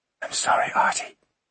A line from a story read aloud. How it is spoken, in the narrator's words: she whispered into his ear